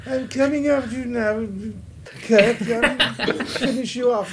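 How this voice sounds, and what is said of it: Imitates another person's voice. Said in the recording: “I wish it was James Mason doing the voice. ... now I want James Mason”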